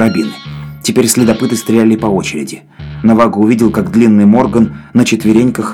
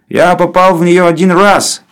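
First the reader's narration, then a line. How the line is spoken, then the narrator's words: Said loudly. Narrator (Russian): громко сказал Гэмфри Морган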